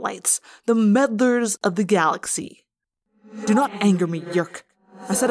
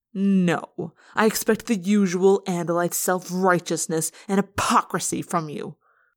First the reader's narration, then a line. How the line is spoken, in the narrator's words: Eslin spat